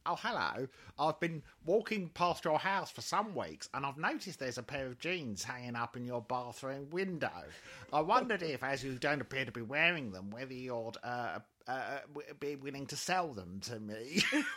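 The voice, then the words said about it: Weird put-on voice. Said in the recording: “in this weird voice,”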